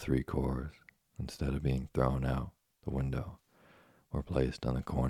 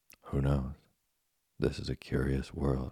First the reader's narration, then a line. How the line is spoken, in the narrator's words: replied Geppetto calmly